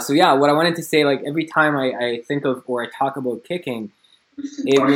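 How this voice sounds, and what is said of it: Usual voice. Nothing is said of it.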